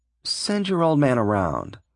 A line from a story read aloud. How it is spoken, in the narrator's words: the salesman muttered uneasily